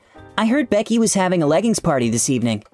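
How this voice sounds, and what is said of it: Put-on feminine voice. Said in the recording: “put on his best feminine voice impression”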